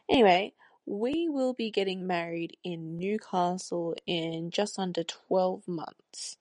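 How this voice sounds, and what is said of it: Australian accent. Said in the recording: “If you couldn't hear my Australian accent.”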